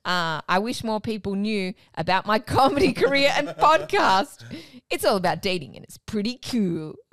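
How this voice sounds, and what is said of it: Goofy put-on voice. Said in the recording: “when you do that voice, it sounds goofy.”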